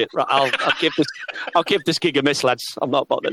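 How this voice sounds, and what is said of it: Put-on Cockney accent. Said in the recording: “That sounded a bit cockney then ... why have I got all cockney?”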